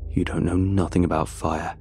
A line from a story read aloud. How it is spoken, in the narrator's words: he hissed